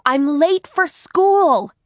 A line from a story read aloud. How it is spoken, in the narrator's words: Harriet shouted